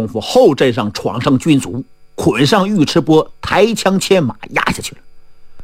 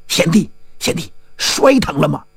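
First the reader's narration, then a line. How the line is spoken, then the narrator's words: Hurried whisper. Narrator (Chinese): 包金花赶忙小声问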